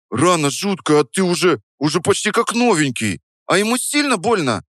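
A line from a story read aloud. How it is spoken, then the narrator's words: Squeak. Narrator (Russian): Пискнул он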